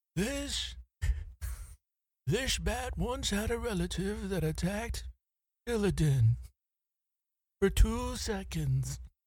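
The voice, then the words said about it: Old man character voice. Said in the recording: “I don't know how to do Decker Kane's voice. It's old man voice, right? Like mine. ... See, that's better than mine.”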